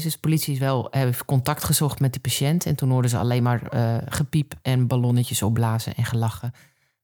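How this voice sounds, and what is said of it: Noticeable regional Dutch accent. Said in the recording (Dutch): “ik heb best wel een accent.”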